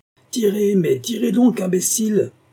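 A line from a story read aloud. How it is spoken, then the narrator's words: Exclamation. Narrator (French): s'écria Scott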